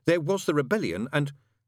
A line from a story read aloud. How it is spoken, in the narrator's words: said the angel stiffly